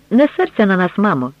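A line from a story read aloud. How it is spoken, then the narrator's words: Cheerful. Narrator (Ukrainian): весело сказав Октав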